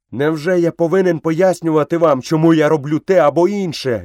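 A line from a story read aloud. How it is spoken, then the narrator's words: Furious shout. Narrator (Ukrainian): люто закричав Мауглі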